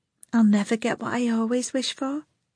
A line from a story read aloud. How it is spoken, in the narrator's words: Priscilla mumbled under her breath